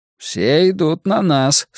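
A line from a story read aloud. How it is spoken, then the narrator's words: Uncertain. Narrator (Russian): сказал неуверенно Грюнальди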